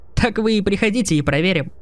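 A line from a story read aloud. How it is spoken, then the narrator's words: Laughing. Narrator (Russian): рассмеялся он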